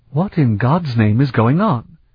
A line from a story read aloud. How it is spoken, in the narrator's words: Barrett exclaimed